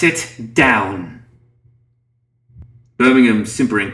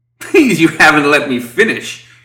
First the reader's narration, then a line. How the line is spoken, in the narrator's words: chuckled Birmingham